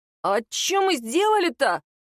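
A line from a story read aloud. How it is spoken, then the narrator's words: Indignant, slightly frightened exclamation. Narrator (Russian): Возмущенно и даже немного испуганно воскликнул Снегирев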